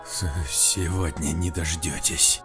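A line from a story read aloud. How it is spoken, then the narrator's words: Hissed. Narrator (Russian): прошипел Вячеслав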